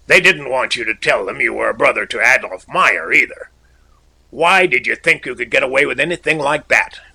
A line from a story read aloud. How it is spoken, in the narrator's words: So, rather harshly, I said